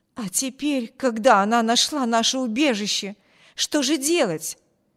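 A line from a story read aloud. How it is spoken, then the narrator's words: Exclamation, woman. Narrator (Russian): воскликнула женщина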